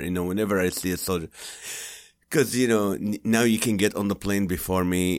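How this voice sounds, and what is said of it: Noticeable non-native accent. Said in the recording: “with my accent”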